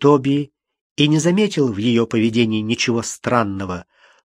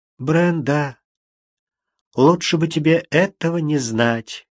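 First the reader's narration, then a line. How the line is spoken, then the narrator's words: Sad. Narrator (Russian): грустно сказала Кэролайн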